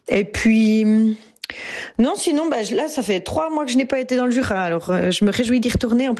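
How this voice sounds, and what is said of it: Jura regional French accent. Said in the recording (French): “La première fois que j'ai rencontré mon accent, c'est quand on s'en est moqué ... ils sont tellement moqués et ris de mon accent ... J'ai grandi dans les Franches-Montagnes ... c'est dans le Jura”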